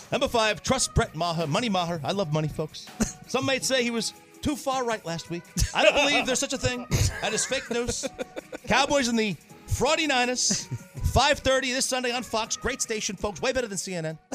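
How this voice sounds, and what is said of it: Imitated voice with New York accent. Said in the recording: “really kind of reverting back to his New York roots here with this accent ... I hate my impression ... I know it's terrible”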